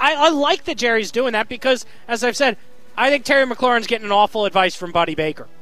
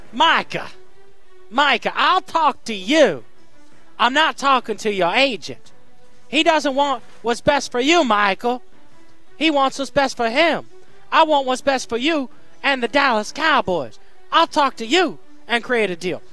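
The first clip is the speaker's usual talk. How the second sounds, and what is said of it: Awful Jerry Jones impression. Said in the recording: “I'm going to attempt to explain this in an awful Jerry Jones accent. I know it's awful.”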